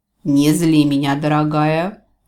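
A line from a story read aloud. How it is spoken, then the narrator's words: Mocking snort. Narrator (Russian): насмешливо фыркнул Джевидж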